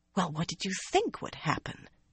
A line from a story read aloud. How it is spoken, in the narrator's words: she whispered